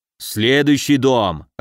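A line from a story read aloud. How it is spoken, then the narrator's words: Bearded man growling. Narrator (Russian): рыкнул бородатый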